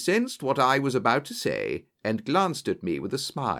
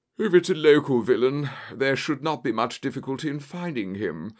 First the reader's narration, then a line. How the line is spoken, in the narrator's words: said Holmes with a yawn